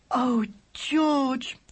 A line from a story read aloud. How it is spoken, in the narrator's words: cried Laura, the tears running down her face